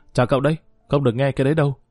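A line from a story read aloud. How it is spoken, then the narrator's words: Shout. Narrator (Vietnamese): hét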